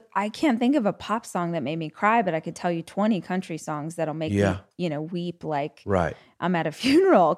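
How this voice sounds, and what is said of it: Strong regional accent. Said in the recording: “the accent went real strong”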